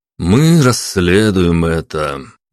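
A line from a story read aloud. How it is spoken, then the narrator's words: Remark with heavy sigh. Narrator (Russian): заметил Павел, тяжело вздохнув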